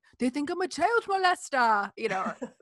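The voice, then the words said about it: Put-on French accent. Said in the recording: “that's my French accent”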